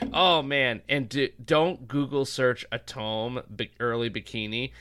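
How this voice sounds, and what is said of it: Usual voice. Nothing is said of it.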